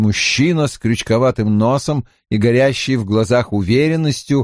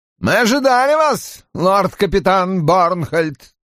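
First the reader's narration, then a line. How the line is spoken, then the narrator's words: Unpleasant voice. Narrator (Russian): неприятным голосом сказал предводитель вопрошающих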